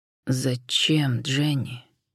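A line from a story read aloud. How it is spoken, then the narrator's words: Pained, stunned exhale. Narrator (Russian): Болезненно и пораженно выдохнул Джон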